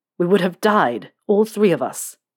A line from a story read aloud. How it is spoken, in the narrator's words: James said, his voice turning into a growl